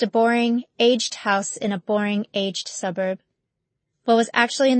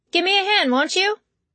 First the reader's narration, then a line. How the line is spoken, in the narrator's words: she yelled